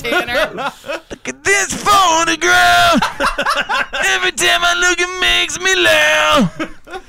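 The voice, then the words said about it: Imitates another person's singing voice. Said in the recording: “It's a good impersonation. ... We just found your number one impression. You're a Chad Kroger guy.”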